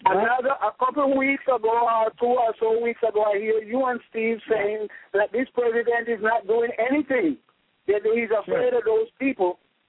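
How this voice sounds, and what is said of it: Hard-to-understand foreign accent. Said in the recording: “your accent again. I couldn't understand you.”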